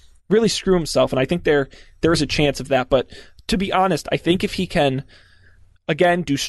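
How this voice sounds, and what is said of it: Usual voice. Nothing is said of it.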